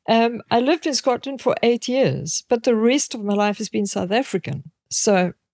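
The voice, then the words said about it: Slight Scottish accent. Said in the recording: “A bit of an accent... Scottish, yeah. Yeah, I can hear that.”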